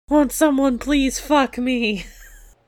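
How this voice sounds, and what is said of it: Screaming. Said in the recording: “Isn't that what you scream? ... Stop screaming.”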